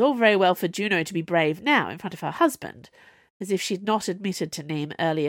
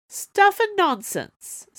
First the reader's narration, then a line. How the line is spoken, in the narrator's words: said Juno cheerfully